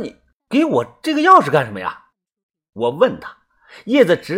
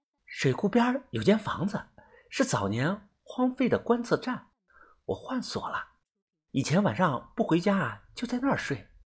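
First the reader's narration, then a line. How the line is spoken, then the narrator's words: Whispering in ear. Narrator (Chinese): 叶子呢，趴在我的耳边小声的说道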